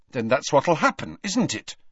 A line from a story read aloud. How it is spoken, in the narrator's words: said Harry fiercely